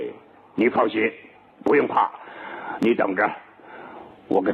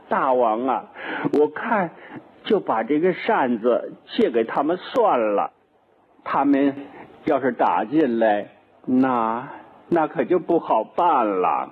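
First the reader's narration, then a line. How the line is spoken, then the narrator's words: Crying. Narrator (Chinese): 铁扇公主 哭了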